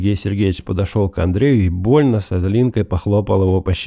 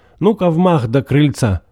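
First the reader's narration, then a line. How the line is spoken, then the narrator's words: Cheerful shout. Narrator (Russian): свояк Сергей Сергеевич закричал весело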